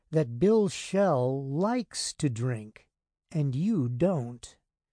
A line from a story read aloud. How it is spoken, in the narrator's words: Rose said slowly